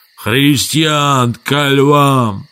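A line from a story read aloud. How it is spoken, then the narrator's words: Hoarse yell. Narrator (Russian): Он заорал хриплым голосом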